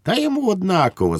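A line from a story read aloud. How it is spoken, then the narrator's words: Amused laughing woman. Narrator (Ukrainian): засміялась Швейкова землячка, сприйнявши останні слова за невдалу спробу сказати щось дотепне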